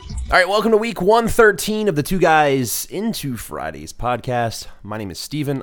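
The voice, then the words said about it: Strained, nearly lost voice. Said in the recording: “I feel like I'm going to lose my voice already just talking”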